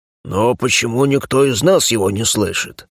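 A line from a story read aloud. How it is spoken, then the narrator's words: Envious mutter. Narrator (Russian): завистливо буркнул Эрк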